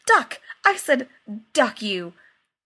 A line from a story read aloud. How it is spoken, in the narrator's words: He looked even more horrified when he realized he had blurted the curse nearly directly into Lola's shell-like ear and said hastily